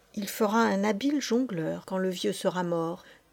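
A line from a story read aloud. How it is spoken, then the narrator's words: Priest murmuring in ear. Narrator (French): murmura le prêtre à l'oreille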